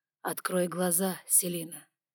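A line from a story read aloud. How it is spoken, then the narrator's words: Hoarse male demand. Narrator (Russian): хрипло потребовал он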